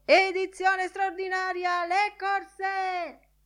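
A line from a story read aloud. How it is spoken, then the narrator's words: Newsboy yelling while running. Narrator (Italian): Un altro strillone li sorpassò di gran corsa urlando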